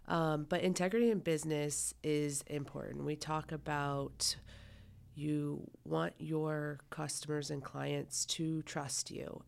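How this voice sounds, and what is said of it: Raspy, hoarse voice. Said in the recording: “I sound like an 80-year-old smoker today ... I have been under the weather ... my raspy voice”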